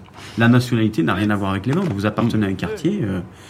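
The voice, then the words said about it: Southern French accent. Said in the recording (French): “Vous entendez à mon accent que je suis du sud de la France”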